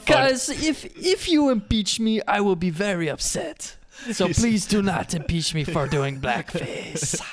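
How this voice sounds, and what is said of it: Badly done put-on accent. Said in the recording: “my really bad racist African man accent ... I thought that was supposed to be like French Canadian or something ... How are you so bad at this accent?”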